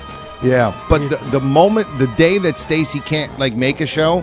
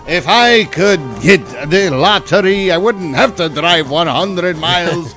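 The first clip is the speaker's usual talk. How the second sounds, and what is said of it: Sounds like an Irish accent. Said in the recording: “I don't know why I sound Irish there.”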